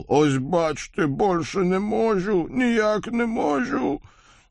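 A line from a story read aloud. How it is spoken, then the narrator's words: Showy wheeze. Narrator (Russian): Кузнец демонстративно прохрипел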